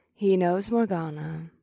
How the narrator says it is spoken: Vesta purred

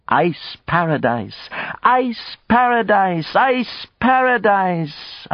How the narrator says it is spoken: until they were helpless with laughter

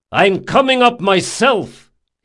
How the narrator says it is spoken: He shouted

